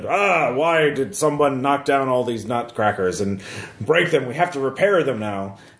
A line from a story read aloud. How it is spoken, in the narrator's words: the lead Nutcracker was grumbling